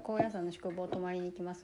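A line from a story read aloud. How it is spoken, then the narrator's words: Plain. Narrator (Japanese): って言ったら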